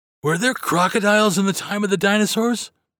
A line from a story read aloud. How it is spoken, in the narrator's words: finally gasped